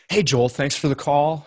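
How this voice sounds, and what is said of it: Radio announcer voice. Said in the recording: “I heard my like radio voice.”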